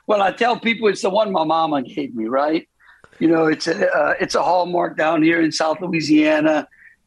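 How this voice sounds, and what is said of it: Thick Cajun accent. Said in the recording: “you had that Cajun accent coming on thick.”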